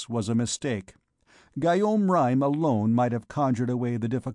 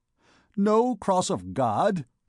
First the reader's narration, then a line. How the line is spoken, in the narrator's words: he exclaimed, in his voice of thunder